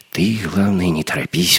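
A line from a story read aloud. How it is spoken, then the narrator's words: Whisper. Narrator (Russian): прошептал Леха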